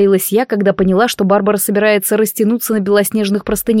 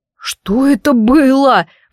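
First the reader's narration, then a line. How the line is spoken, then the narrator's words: Howling. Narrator (Russian): взвыл Айван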